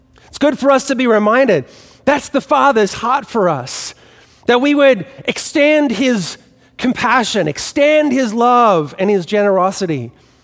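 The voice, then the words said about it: Faint Australian accent. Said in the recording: “what's left of my Australian accent”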